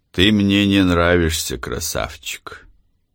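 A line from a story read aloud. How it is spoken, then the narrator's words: Rough voice. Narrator (Russian): его грубым голосом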